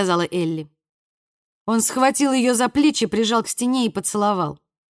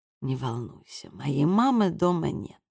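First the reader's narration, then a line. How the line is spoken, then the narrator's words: Warm, intimate whisper. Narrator (Russian): дыхание его было горячим и сладким от скотча, прошептал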